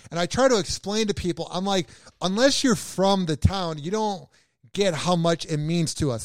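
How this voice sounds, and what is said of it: Chicago accent. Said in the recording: “I have this, the accent of being from Chicago”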